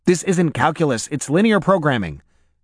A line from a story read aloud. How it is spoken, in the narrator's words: Noah blurted